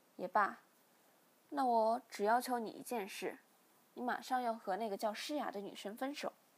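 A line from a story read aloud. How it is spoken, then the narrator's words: Sighing father. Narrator (Chinese): 父亲听后叹了口气，便说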